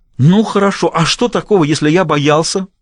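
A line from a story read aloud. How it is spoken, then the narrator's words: Shouted. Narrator (Russian): выкрикнул он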